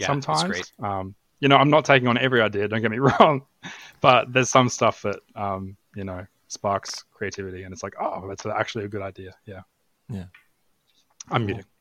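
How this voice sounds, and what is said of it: Australian (Queensland) accent. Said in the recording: “Max can't stand the Australian accent ... it's not the Australian one. I think we established it's a Queenslander one.”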